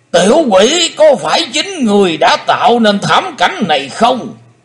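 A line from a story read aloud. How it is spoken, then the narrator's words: Thunderous roar. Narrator (Vietnamese): Lão đại ma đầu quát to như trời gầm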